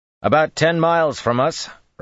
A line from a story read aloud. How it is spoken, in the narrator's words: Rand said loudly